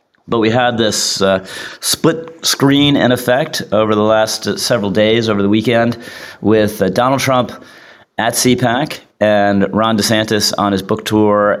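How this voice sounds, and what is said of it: Rough, congested voice. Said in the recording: “excuse my voice, fighting a little bit of a cold.”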